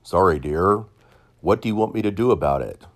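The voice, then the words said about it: Imitates another person's voice. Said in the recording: “Notice I sound like Sam Elliott.”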